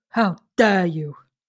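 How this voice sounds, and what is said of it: Imitates another person's voice. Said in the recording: “in a Greta Thunberg voice.”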